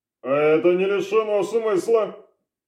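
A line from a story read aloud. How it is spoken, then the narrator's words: Snort. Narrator (Russian): хмыкнул Орлов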